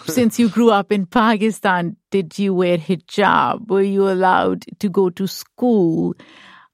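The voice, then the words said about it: Speaks with a foreign accent. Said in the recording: “Where is this accent from?”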